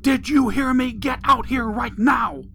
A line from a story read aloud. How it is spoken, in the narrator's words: the woman's voice yelled again